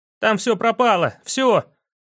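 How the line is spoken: Shout right into ear. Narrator (Russian): крикнул Йорик ему в самое ухо

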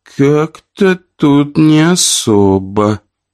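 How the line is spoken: Drawling. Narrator (Russian): протянула одна из дочерей

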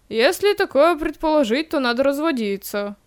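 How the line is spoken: Wry snort. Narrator (Russian): хмыкнул Зибриевич

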